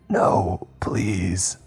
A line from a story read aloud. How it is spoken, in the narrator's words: Miss Flanagan rasped, powerless